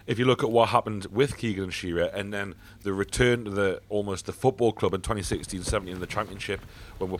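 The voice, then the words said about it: Hoarse, fading voice. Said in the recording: “just losing my voice here.”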